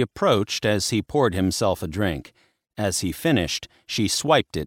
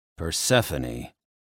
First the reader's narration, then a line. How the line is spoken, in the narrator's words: Hades growled